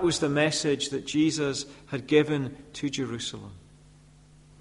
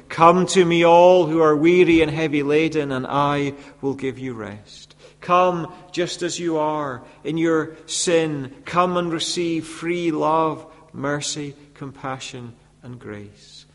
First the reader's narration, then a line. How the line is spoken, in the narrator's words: Jesus had cried out to this same Jerusalem